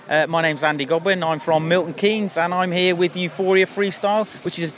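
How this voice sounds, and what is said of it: Traditional English accent. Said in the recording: “a traditional English accent”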